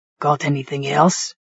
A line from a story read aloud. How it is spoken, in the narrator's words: he asked, his voice rasped from my strangulation attempt